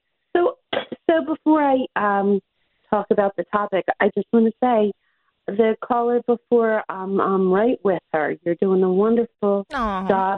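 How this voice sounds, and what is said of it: Slightly scratchy voice. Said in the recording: “My voice is a little scratchy. I won't say it's allergies.”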